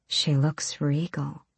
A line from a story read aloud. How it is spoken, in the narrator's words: Nezrin murmured to him